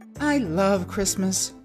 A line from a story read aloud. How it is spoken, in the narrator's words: Zuma said with a sigh